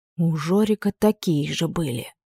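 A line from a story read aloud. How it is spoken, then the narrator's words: Whisper. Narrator (Russian): прошептала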